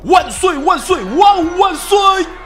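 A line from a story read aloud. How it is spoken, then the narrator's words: Crowd shouting in unison. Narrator (Chinese): 在场众人齐声高喊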